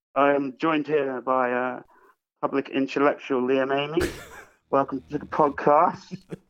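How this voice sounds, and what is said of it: Imitates another person's voice. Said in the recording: “I did my best impression I could of you... sounded like me, yeah... Identical.”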